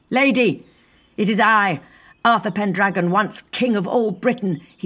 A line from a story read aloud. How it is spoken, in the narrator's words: he yelled, hoping against hope